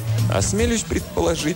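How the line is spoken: Laughing. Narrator (Russian): засмеялся Андре

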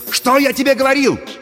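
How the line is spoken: Excited shouting. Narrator (Russian): возбужденно кричал Пашка

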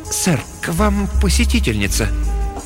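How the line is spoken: Tense, uncertain announcement. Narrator (Russian): слуга объявил напряженным, неуверенным голосом

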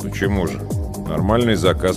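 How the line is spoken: Grumble. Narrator (Russian): пробурчал я

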